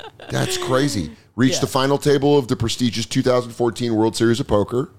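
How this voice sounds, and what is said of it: Usual voice. Nothing is said of it.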